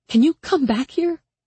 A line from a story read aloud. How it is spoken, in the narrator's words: She asked, her voice shaking with panic